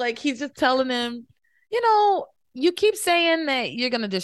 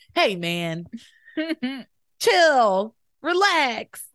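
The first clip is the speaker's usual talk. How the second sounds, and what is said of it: Impression of Chad saying hey man. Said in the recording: “my Chad impression”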